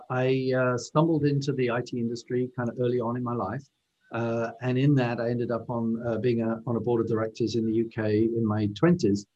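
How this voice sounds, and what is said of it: British English accent. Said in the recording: “as you might be able to tell from my accent, I'm originally from the UK”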